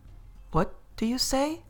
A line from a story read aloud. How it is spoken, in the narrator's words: she said to the guard, so sharply that she saw his surprise